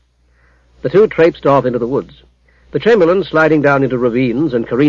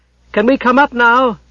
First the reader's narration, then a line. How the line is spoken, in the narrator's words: Bane shouted